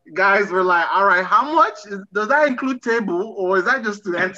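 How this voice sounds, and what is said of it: Noticeable accent comes out. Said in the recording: “That's where your accent comes out.”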